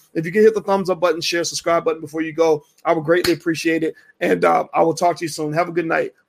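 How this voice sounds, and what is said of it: Hoarse, worn-out voice. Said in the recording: “Ooh, my voice is gone.”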